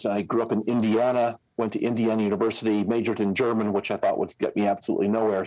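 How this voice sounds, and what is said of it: American accent. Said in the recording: “I'm an American, as you can probably hear from my accent.”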